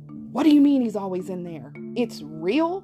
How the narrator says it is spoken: yelled

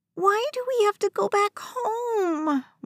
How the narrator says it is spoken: West whined

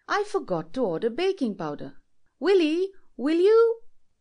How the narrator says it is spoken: she cried

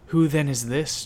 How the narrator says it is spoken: John says, his voice shaking

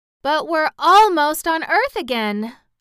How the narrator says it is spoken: cried Dorothy

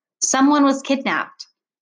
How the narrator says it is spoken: said

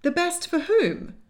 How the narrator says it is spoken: asked April indignantly

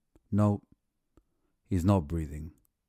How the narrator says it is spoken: said flatly

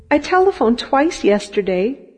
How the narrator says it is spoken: she rushed on quickly, pleadingly

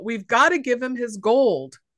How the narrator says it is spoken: Tori yells out

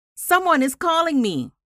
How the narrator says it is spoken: called out

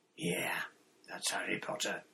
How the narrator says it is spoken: said a growling voice

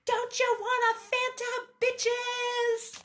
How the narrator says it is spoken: A true warrior and a party animal, Svana yelled again

